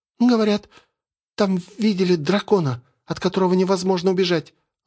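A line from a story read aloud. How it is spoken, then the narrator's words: Timid young woman. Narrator (Russian): робко произнесла девушка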